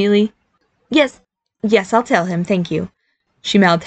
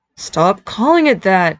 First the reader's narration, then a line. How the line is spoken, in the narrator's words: Barry moaned in his mind